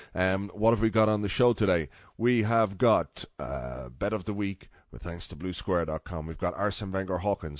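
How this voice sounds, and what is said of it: Nasal, congested voice from cold. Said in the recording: “I have a bit of a cold, which is a pain because it's making me talk out my nose”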